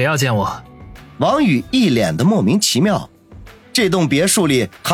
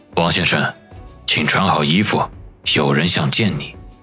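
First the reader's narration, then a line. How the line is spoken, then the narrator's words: Solemn, low-voiced man. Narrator (Chinese): 那段姓的中年人一脸肃然，沉声地说道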